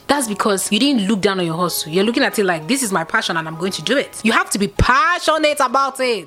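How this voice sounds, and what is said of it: Preachy, sermon-like delivery. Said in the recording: “Why am I talking like a pastor? I feel like I'm talking like a pastor”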